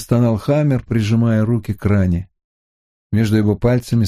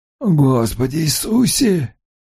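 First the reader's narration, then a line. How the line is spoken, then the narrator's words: Pained groan. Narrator (Russian): простонал Хаммер, держась за живот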